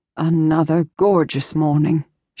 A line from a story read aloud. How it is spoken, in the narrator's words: she said with a sigh